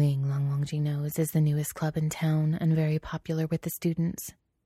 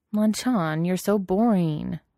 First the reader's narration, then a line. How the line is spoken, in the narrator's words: Wei Wuxian whines